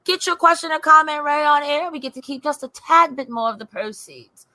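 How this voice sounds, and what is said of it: Bad put-on British accent. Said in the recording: “This British accent is terrible, but it's happy.”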